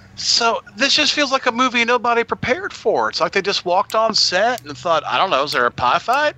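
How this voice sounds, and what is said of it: Natural regional accent, not radio voice. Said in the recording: “it's so bad it's making X's accent come out ... I'm tired of my region free dialect. I'm just going to talk ... there's the radio voice, and then here's just how I talk”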